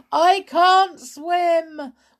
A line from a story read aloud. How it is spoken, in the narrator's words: wailed Sailor